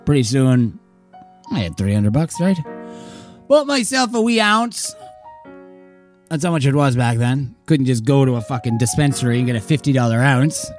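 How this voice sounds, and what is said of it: Put-on Irish accent, inconsistent. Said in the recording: “Accent's really going all over the map now. ... I kind of forgot that you didn't have an Irish accent”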